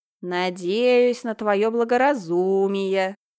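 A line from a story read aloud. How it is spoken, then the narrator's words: Old man's groaning voice. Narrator (Russian): Старческим голосом прокряхтел Димка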